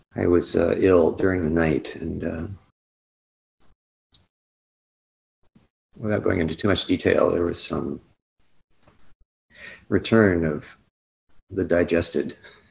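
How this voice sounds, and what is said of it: Tired, deeper voice than usual. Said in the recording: “I'm a little bit weary this morning... my voice is perhaps a bit more masculine than usual”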